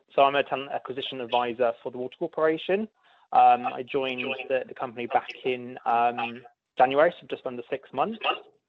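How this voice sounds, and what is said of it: British English accent. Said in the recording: “If you can't tell from my accent, I am from the UK”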